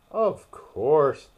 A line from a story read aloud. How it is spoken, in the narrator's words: the Dodo replied very gravely